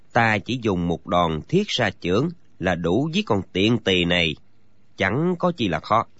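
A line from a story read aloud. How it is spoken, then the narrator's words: Quiet, low. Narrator (Vietnamese): nhỏ giọng nói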